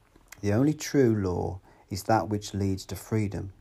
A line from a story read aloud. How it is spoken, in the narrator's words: Jonathan said